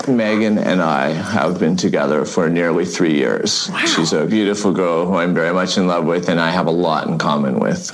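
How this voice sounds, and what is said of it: Heavy vocal fry male voice. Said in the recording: “this is the most vocal fry I've ever heard in a man”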